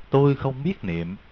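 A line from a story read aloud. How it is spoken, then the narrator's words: Faint weak whisper. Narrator (Vietnamese): A Kiều thiều thào nhỏ giọng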